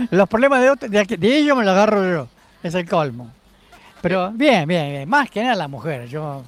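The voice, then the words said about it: Argentine Spanish accent. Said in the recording (Spanish): “Pero con acento argentino, ¿no?”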